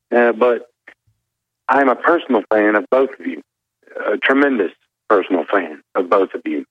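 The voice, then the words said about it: Mild Southern US accent. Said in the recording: “got me a little southern accent because I'm from Georgia”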